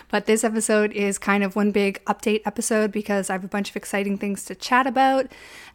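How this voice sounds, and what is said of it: Strained, fading voice. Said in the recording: “I'm kind of losing my voice. It's only a matter of time before it goes.”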